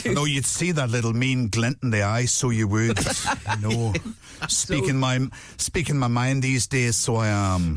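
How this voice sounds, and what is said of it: Northern Irish Eamon Holmes impression. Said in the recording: “do an Eamon Holmes impression ... You can sound like Eamon Holmes down Northern Irish”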